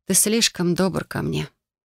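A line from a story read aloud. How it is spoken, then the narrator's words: Muttering. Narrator (Russian): пробормотала я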